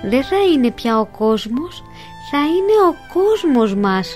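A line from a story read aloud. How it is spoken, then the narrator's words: Smiling. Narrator (Greek): του χαμογέλασε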